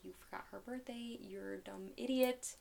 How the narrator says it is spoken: whispering in ear

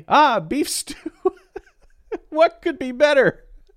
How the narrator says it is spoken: I laugh

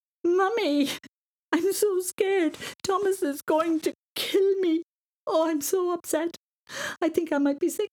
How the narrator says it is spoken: She sobbed

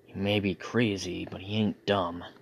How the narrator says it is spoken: Noah muttered to himself

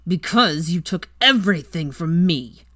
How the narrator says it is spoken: spat with vehemence

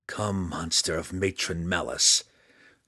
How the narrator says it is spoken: Drizzt growled

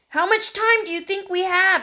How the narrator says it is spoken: shouted Michael

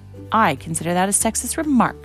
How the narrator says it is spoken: snapped angrily

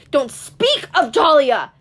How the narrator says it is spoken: he shouted

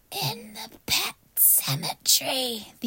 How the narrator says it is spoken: the young man croaked

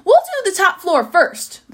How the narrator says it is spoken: the giraffe shouted down

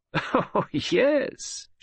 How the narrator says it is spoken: she laughed

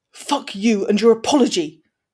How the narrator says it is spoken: snarled Blaze

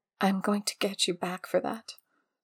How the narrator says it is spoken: whispered

